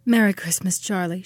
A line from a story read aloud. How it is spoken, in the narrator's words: she said tenderly